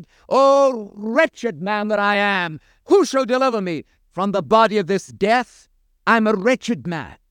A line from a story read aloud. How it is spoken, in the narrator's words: he cried